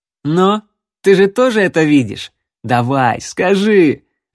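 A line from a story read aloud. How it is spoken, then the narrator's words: Laughing. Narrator (Russian): рассмеялся Рексволд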